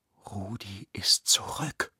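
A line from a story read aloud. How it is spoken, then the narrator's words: Whispered. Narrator (German): flüsterte Lena ihrem Bruder zu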